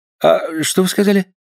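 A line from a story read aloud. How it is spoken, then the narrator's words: Mumbling. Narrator (Russian): пробормотал географ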